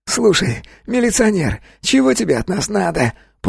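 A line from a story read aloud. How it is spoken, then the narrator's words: Whining. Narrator (Russian): проскулил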